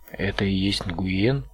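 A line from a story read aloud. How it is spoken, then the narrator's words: Plain. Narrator (Russian): спросил Отто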